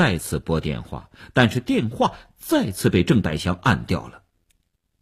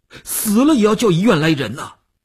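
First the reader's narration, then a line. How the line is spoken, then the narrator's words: Tense, almost shouting. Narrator (Chinese): 吴长天头皮一紧，他几乎要喊起来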